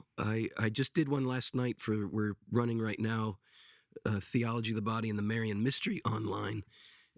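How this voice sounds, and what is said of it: Strained, struggling voice. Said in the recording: “I apologize for my voice ... as you can tell, I'm struggling even to talk”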